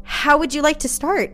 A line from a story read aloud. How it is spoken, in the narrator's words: He asked nervously